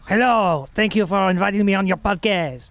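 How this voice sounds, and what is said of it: Napoleon character with strange accent. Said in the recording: “He's got a crazy accent. He talks super weird... Napoleon Bonaparte”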